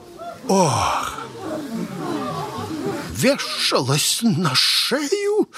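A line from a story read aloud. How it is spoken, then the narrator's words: Indignant whisper. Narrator (Russian): вышептал возмущенный родитель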